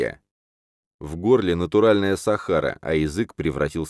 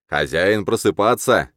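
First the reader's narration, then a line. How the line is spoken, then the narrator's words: Joyful exclamation, priest. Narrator (Russian): радостно восклицает жрец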